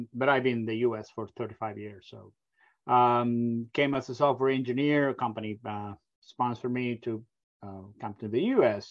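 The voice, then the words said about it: Argentinian accent. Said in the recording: “You can probably pick up my accent. I come from a very far away country, from Argentina.”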